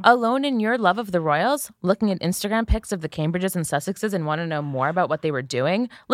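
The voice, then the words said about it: Reads like a commercial announcer. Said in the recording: “I'm going to read it in a commercial voice.”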